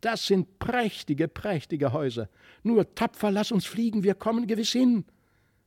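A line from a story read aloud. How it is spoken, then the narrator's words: Delighted exclamation. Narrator (German): rief er voll Entzücken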